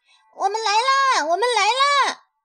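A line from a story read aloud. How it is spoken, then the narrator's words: Little hedgehog calling out. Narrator (Chinese): 小刺猬的呼喊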